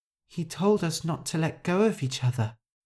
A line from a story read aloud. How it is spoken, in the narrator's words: Shu muttered